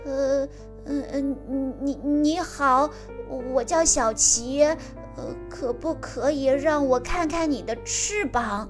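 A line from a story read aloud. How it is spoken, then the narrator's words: Surprised. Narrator (Chinese): 大鸟惊讶地说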